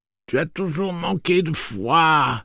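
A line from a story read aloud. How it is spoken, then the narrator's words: Pained moaning. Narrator (French): gémit-elle d'une voix douloureuse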